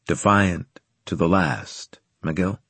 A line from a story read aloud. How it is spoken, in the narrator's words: he asked